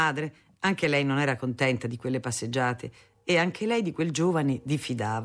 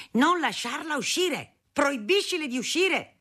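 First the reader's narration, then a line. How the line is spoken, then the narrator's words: Father yelling. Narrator (Italian): Mio padre urlava a mia madre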